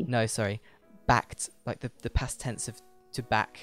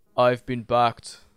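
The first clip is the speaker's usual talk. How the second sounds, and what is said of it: Arnold Schwarzenegger accent impression. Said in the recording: “Let me try it with an accent ... Is it Arnie related? ... Yes, it's Arnie related.”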